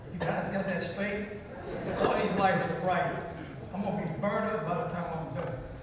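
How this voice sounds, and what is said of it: Speaks with a strong regional dialect. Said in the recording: “he's hard to understand with that accent ... Don't take my dialect on accent. This is a dialect.”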